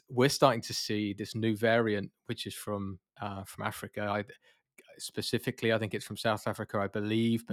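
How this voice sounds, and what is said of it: British accent. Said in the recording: “I'm obviously from the UK.”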